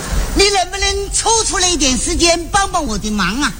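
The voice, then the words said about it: Southern Chinese accent. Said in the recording (Chinese): “听口音这位是南方人。”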